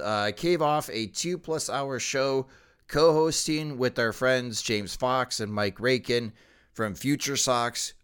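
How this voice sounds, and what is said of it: Strained, worn-out voice. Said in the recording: “my voice is trying to do the best it can to hold up”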